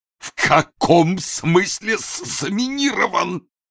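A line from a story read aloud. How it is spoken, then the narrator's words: Wheezed. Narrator (Russian): просипел Ной Ноевич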